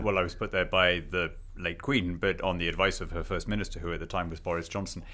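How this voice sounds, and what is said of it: British accent. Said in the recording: “you are from the UK. People might have already figured this out from your accent.”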